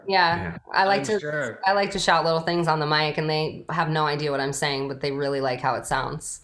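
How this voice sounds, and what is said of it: New York accent. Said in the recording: “they really like my accent when I travel ... she really is from New York”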